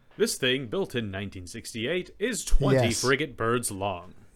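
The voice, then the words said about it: Alex Trebek impression. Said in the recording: “good Alex Trebek impression ... That's pretty decent.”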